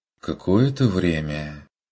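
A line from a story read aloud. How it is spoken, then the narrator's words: Confused questioning. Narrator (Russian): переспросила Амалия растерянно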